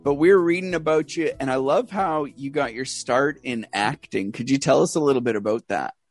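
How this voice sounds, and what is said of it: Canadian accent. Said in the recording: “I love your accent ... I love the about ... I've got some other Canadian friends”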